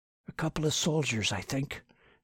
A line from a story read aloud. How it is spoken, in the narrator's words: he whispered